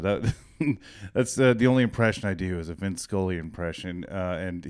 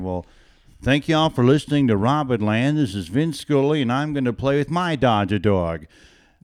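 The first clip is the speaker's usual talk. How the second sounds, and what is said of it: Imitates an elderly man's voice. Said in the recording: “do a Vince Scully impression ... he's been retired and he's like 98 years old”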